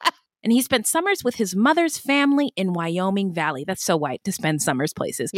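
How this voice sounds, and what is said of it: Usual voice. Nothing is said of it.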